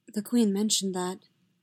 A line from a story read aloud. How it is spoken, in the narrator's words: Padme murmured